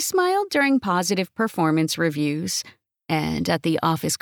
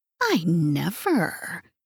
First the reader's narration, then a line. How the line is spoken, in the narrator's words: wanted to hiss